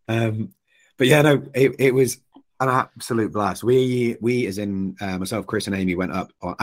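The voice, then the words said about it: Hoarse, nearly lost voice. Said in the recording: “my voice is completely gone”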